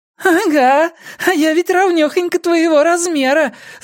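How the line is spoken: Laughing little fairy. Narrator (Russian): засмеялась феечка

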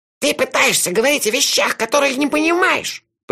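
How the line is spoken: Hissing. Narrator (Russian): прошипел карлик

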